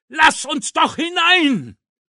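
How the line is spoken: Screamed. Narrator (German): schrie er

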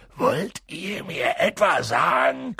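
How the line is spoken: Growling. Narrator (German): knurrte er sie an

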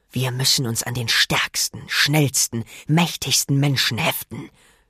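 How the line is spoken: Hissing. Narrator (German): zischte er

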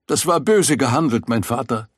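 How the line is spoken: Called out. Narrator (German): rief sie

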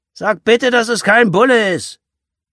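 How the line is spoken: Call after. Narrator (German): Wolfgang rief ihr hinterher

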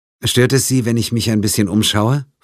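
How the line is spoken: Plain. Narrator (German): fragte Pine

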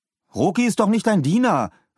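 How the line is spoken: Indignant call across. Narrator (German): rief Paul empört zu Philipp hinüber

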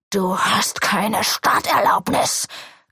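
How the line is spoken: Growled. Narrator (German): knurrt er

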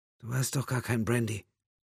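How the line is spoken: Slightly cracking voice. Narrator (German): sagte sie mit leicht brüchiger Stimme

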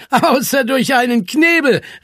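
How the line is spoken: Calling out, laughing. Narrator (German): rief Zwolle und lachte

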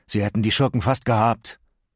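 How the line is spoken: Groaning. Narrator (German): stöhnte Miles

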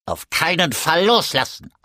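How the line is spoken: Croak. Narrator (German): krächzte Alchibar

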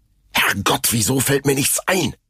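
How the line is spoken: Hissed. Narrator (German): zischte er

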